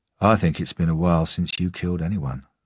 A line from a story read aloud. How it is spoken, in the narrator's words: I said quietly